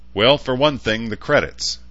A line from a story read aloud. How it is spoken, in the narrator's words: Dionys said, apparently unfazed by the laughter